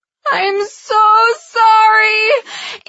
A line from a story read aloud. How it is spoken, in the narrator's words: Andy sobbed